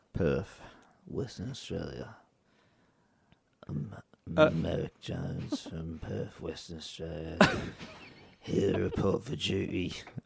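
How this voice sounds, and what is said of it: Weird put-on English accent. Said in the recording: “Some reason I got a weird English accent.”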